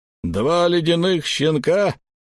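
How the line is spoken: Slightly irritated stranger. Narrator (Russian): чуть раздраженно проговорил незнакомец

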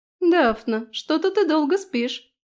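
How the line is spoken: Cheerful. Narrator (Russian): весело заметила Трис

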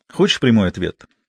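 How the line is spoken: Plain. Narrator (Russian): сказал Мазур

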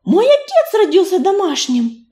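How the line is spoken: Exclaimed. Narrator (Russian): воскликнула Листвичка

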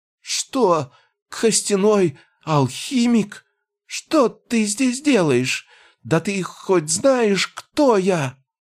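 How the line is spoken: Trembling frightened babble. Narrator (Russian): Пролепетал он дрожащим голосом

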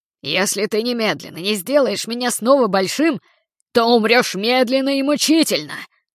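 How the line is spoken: Growled. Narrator (Russian): Прорычал Балаклава Барби

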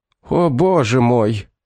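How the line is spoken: Sobbing. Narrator (Russian): прорыдал он

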